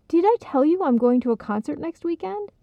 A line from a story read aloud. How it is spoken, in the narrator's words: Lisa exclaimed